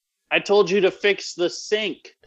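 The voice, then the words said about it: Put-on Chicago accent, character voice. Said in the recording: “my accent for Amy is really Chicago”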